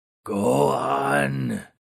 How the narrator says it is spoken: thunderously croaked the ghoul

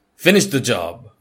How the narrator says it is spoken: barks the interviewer

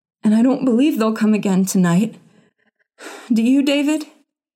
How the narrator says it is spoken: she gasped

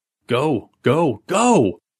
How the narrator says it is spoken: Billy shouted

